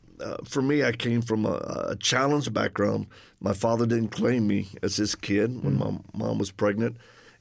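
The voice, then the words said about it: Cajun Southern accent. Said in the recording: “if people detect an accent, that's the Cajun one”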